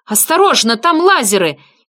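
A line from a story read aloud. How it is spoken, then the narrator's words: Shouted. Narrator (Russian): крикнула Росс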